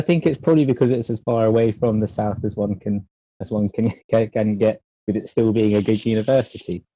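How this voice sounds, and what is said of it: Southern English accent. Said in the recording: “with that accent, obviously being from London ... you can hear that I'm keep remarking on his accent ... because it's a cool one”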